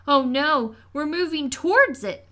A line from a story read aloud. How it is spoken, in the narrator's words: The oldest child shouted